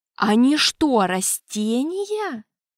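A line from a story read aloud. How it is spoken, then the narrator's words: Astonished exclamation. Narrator (Russian): пораженно воскликнул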